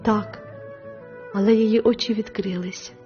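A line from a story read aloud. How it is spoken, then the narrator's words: Tender woman's voice. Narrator (Ukrainian): ніжно сказала мадемуазель Віртут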